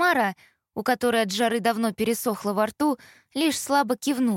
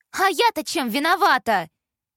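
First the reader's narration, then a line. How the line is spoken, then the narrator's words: Shouting. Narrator (Russian): кричала Изи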